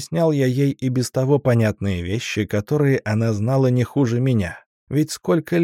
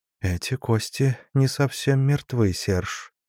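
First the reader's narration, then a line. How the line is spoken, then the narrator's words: Whisper. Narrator (Russian): прошептала графиня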